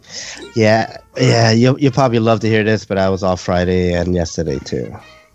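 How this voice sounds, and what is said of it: Sick, rough-throated voice. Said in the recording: “you sound a little under the weather ... My throat is really fucked up”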